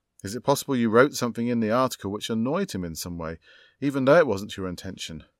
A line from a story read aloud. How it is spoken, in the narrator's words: Juniper sighed